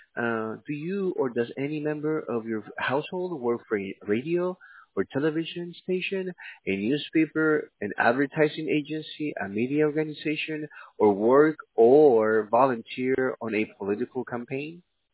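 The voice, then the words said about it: Central American Hispanic accent. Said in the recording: “I love your accent. ... I am Hispanic. I am from Central America.”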